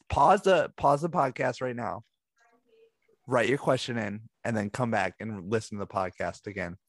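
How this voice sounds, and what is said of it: Slightly scratchy, hoarse voice. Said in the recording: “I am kind of losing my voice, so that's why I'm a little scratchy.”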